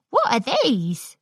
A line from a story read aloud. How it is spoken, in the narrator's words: Scootaloo chirped with glee